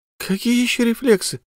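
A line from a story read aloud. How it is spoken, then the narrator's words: Hoarse young woman. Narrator (Russian): прохрипела девушка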